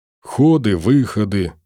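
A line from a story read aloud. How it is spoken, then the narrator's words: Grumble. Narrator (Russian): проворчал Филин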